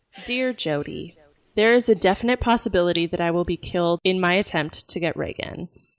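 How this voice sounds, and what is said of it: Creepy voice. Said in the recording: “let me get my creepy voice on”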